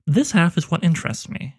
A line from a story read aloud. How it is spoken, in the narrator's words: said